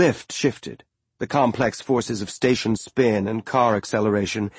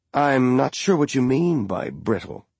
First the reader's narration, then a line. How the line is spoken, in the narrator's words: Jim said